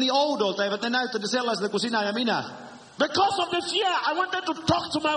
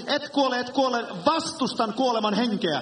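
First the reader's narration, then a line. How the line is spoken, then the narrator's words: Crying and shouting woman. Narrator (Finnish): Vaimoni itki ja huusi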